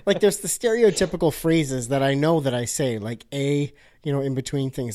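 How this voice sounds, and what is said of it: Canadian accent. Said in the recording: “I can hear your Canadian accent... Yes. Yeah, you do.”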